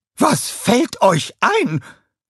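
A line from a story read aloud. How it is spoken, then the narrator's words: Angry scream. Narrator (German): schrie sie mit hochrotem Gesicht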